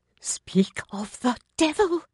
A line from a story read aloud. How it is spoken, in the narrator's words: Lady Balfour whispered urgently